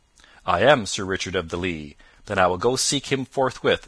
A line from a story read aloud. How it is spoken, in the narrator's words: said the knight